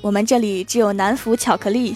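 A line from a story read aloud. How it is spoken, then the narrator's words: Flat, indifferent. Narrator (Chinese): 老板淡淡的说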